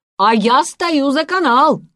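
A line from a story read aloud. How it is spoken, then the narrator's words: Shouted. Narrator (Russian): крикнул он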